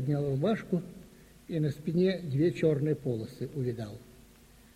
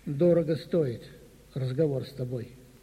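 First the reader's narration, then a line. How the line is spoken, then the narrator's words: Sad. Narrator (Russian): Он посмотрел на меня так грустно и говорит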